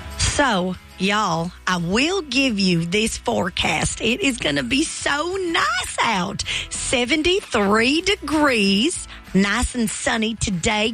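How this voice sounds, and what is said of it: Put-on Southern accent. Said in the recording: “your Southern accent is spot on, so I need you to do the weather in a Southern accent”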